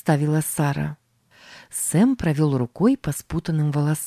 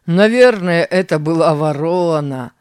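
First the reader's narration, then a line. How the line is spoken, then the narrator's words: Laughing. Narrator (Russian): рассмеялся Тим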